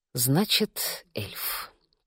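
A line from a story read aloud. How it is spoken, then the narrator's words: Muttering. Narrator (Russian): пробормотала я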